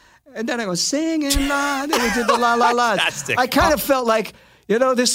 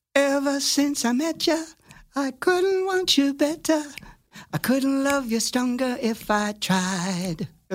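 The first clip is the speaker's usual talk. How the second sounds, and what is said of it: Singing in falsetto. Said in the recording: “sing the falsetto part ... It's my fake voice. ... I'm singing like my Aunt Minnie”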